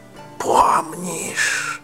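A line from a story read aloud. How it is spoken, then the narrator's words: Whispers one after another. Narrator (Russian): шептали они одно за другим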